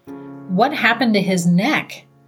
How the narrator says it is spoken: she then exclaimed

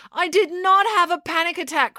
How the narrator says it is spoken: cried April

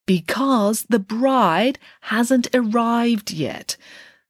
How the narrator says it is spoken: Nanny Piggins explained slowly, beginning to be concerned

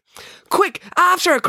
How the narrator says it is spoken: cried April

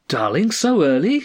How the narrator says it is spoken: she cried

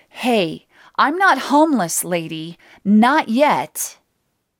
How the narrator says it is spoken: I wanted to yell

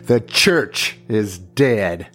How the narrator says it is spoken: loudly proclaimed

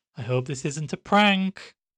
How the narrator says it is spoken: Chad called out into the kitchen from the hallway

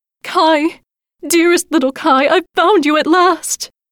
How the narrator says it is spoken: She held him close and cried

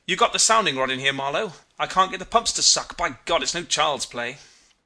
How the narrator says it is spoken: He said excitedly

